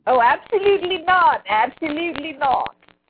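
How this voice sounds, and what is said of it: Put-on British accent. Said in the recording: “my little British accent came out for some reason ... That was your Block Duck Radio lady accent”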